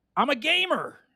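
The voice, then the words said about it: Shouting. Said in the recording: “He's shouting”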